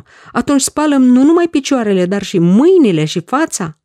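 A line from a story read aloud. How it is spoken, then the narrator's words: Exclaiming. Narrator (Romanian): a exclamat atunci Petru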